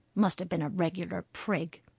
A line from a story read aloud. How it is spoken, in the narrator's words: growled Harry under his breath